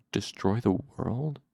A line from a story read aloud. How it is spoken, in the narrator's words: Silatos said softly to himself